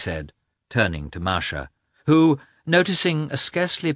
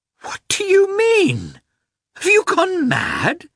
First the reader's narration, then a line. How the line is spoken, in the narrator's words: exclaimed Dolly, terrified